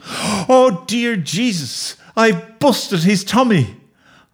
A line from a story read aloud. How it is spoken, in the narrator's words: moaned